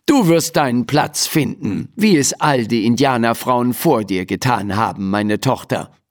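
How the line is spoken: Plain. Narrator (German): sagte Mama

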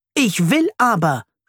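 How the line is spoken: Shouting. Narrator (German): schreit er

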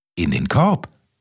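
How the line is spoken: Plain. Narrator (German): sagte Kaspermütze

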